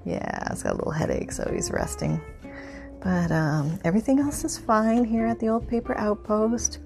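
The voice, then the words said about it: Half whisper. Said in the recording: “I'm kind of pseudo half whispering”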